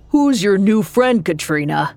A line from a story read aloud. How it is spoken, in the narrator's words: A deep voice boomed from behind